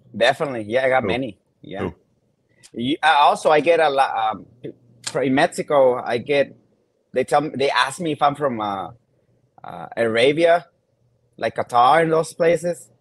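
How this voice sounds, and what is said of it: Latin American accent. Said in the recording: “I can tell by your accent that you're Latin”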